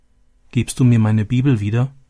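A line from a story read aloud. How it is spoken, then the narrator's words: Plain. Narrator (German): fragte sie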